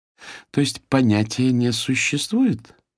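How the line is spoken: Sly insinuating voice near ear. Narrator (Russian): неожиданно раздался вкрадчиво коварный голос у моего уха

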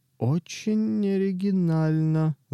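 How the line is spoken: Dull gloomy voice. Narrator (Russian): заявил он унылым голосом

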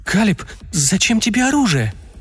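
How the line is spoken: Woman's trembling voice. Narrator (Russian): дрожащим голосом произнесла женщина

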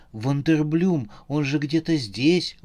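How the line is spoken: Exclaiming while spitting. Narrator (Russian): воскликнула Ирина, отплевываясь

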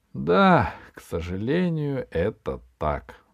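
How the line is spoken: Sighing. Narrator (Russian): вздохнул Хруст

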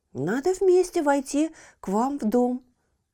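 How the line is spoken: Exclaimed. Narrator (Russian): воскликнула Мия

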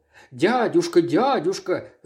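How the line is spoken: Moaning. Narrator (Russian): застонал Фридрих

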